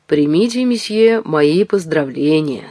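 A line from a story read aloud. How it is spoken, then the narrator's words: Plain. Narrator (Russian): сказал, наконец, Бурбаки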